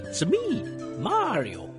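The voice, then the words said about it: Poor impression of Mario's voice. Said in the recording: “Sorry for the terrible impression, by the way, Charles Martinet.”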